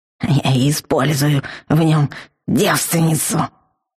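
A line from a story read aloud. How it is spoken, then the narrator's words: Angry grumble. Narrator (Russian): Злобно буркнул он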